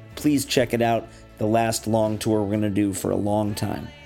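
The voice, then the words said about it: Slightly crispy, hoarse voice. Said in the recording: “my voice sounds a little crispy right now. I'm on a little tour with my band”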